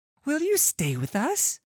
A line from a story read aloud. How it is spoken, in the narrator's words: blurts out